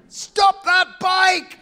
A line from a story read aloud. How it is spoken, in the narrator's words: I screamed